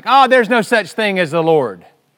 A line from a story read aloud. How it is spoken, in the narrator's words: He would shout back